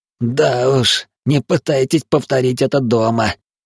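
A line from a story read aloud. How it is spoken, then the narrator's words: Hoarse laugh. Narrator (Russian): Парень сипло рассмеялся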